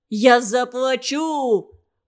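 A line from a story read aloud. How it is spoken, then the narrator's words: Impatient shout, rich man. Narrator (Russian): В нетерпении закричал богач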